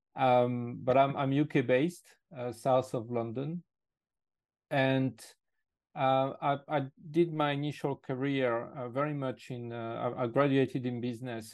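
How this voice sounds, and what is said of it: French accent in English. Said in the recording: “I'm actually originally French ... my accent is not completely the one of a local”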